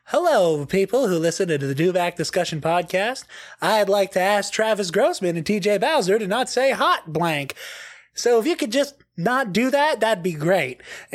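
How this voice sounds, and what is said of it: Imitates another person's voice. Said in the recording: “my shitty John Mulaney impression”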